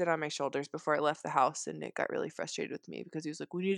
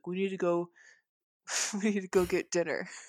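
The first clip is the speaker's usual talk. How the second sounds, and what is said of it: Imitates another person's voice. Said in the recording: “I like your Nick impression. It's so spot on.”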